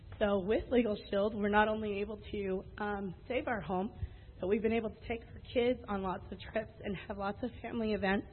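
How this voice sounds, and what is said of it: Emotional, choked-up voice. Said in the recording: “sorry, I'm getting emotional,”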